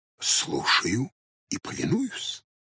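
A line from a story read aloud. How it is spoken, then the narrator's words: Old man whispering. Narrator (Russian): также шепотом ответил старик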